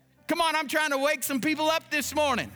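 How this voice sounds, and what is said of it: Shouting preacher. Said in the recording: “I'm shouting”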